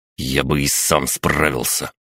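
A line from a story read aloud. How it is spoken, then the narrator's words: Growled. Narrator (Russian): прорычал Александр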